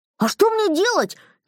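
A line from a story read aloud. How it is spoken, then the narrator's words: Nervous shout. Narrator (Russian): нервно выкрикнул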